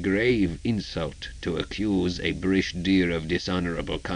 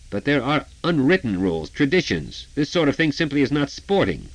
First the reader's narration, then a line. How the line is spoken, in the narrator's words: Hill, untangling himself from the locker, sputtered